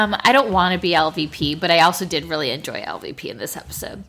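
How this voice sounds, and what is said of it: Usual voice. Nothing is said of it.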